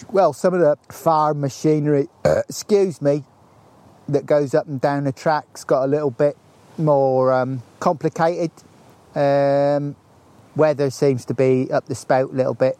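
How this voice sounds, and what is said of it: Regional accent, not quite Norfolk. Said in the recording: “It's an interesting accent you've got there as well. It's not quite a Norfolk accent”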